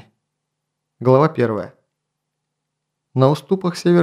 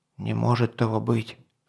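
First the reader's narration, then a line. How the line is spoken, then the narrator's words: Whisper in ear. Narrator (Russian): прошептал князь Грабрадиз на ухо князю Бардигреду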